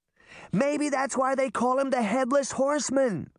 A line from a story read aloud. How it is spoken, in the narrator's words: Sabrina shouted